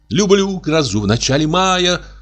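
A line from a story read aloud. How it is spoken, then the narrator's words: Shrill high singing, laughing. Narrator (Russian): запела она высоким, визжащим сопрано, прерывая свой визг смехом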